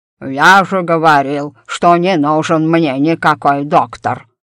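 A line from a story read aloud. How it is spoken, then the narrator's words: Snorting. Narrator (Russian): фыркнул мистер Найджел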